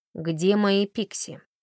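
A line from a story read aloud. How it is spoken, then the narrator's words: Stern question. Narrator (Russian): строго спросила Тесса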